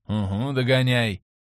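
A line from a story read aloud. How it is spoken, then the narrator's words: Grumble. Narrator (Russian): пробурчал я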